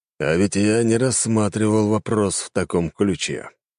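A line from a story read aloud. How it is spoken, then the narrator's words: Grumbled. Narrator (Russian): буркнул он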